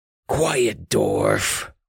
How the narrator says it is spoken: Marx hissed over his shoulder

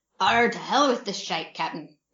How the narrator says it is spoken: Redbeard growled suddenly

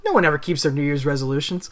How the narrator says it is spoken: King Lawler laughed it off and said

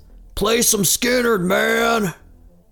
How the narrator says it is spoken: the character of Dave as he yells

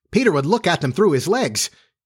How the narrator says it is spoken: Almost in the same breath they cried

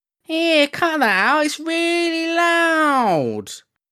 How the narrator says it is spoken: He awoke with a start and whined

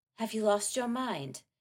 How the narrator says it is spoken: Catherine breathed

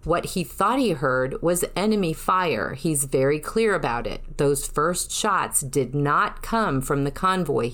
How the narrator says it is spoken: he said

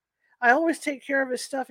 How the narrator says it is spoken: he says

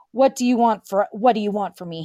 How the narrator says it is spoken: He growled low

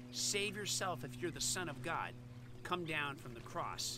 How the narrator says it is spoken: his enemies sneered, saying

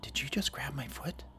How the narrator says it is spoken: whispered

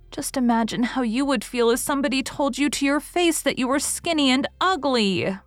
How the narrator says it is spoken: pleaded Anne tearfully

